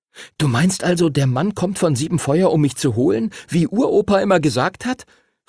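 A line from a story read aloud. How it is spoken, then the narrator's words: Excited question. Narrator (German): fragte Henry aufgeregt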